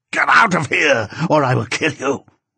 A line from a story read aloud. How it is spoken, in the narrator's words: screamed